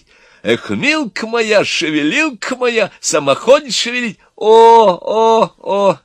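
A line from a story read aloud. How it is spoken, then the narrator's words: Moaning group. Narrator (Russian): застонали молодые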